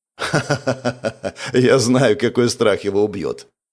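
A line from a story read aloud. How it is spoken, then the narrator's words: Laughing. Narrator (Russian): Андрей засмеялся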